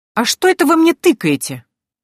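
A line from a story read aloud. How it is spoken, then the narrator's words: Indignant question. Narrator (Russian): возмущенно поинтересовалась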